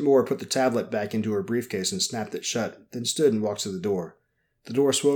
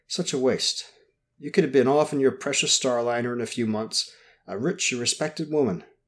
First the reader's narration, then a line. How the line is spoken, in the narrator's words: sighed